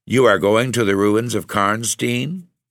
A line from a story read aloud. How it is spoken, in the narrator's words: he said